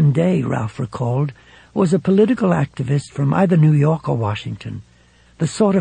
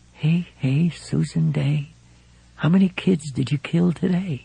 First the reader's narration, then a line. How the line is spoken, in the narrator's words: Far down in his mind, a voice whispered